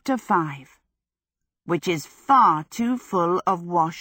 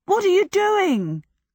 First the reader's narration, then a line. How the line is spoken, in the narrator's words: cried Michael and Calcifer in a horrified chorus